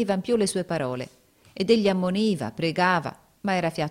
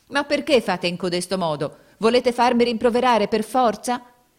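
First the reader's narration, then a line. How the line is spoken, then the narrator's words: Angry tearful shouting. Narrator (Italian): gridava con voce di rabbia e di pianto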